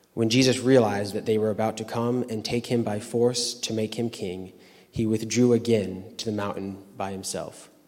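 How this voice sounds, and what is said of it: Correct English accent. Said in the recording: “one real correct English accent”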